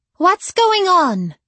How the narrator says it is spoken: Daniela exclaimed

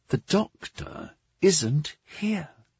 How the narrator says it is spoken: Caleb whispered

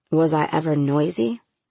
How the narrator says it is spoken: I snapped

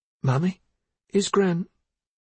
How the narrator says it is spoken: Missa said anxiously

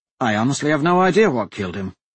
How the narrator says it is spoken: Hadrian said

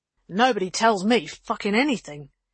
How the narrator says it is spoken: he spat

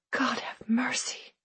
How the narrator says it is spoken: I whispered

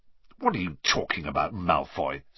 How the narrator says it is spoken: said Ron, roughly

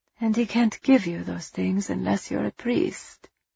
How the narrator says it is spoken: Ava asked sadly

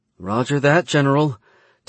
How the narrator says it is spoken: Tessa said nervously

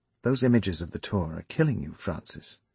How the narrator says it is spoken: she said softly

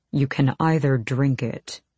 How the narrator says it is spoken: he said, his voice a low growl

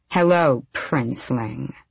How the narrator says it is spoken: she purred

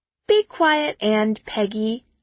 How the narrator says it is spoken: I say, giggling

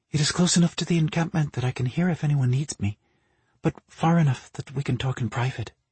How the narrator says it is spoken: Marina murmured

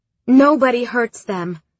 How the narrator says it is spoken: I shouted

